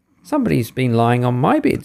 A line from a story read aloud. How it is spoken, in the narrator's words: squeaked the baby bear joyfully